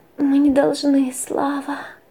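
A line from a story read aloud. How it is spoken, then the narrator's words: Soft whisper. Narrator (Russian): тихо шептала она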